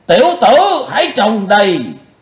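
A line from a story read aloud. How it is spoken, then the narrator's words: Sudden roar. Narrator (Vietnamese): Lão Độc chợt gầm to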